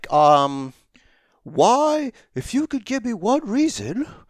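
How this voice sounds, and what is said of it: Deliberately bad imitation of another's voice. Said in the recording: “worst Tony Schiavone impersonation”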